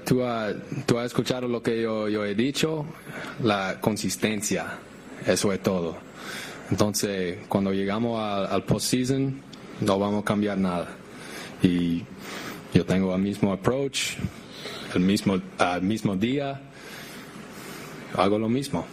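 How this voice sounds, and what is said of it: Caribbean accent, American-Dominican mix. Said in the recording (Spanish): “Hasta lo dice con acento caribeño ... Con acento caribeño ... como una mezcla entre gringo y dominicano”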